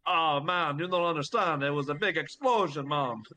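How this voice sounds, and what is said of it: Put-on Jamaican Rastafarian accent. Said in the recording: “just gonna keep going with the Rastafarian. That's how we speak Mustafarian.”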